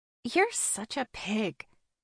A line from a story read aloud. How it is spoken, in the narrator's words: Elle mumbles to him